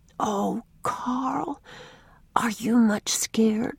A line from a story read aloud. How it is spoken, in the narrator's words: she whispered